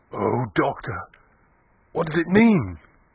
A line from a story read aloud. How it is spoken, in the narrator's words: Klim saying, in an agonized voice